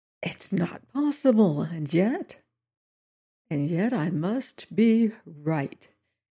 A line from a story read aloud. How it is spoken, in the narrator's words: he said softly